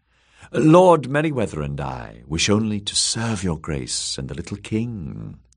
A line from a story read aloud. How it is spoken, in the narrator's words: the woman purred